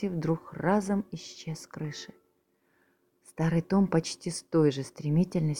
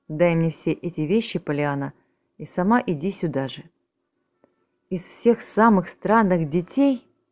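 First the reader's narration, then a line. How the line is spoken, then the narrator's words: Exclaimed. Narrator (Russian): Воскликнула она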